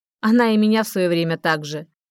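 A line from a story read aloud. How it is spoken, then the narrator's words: Consoling snort. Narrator (Russian): хмыкнул, вроде утешая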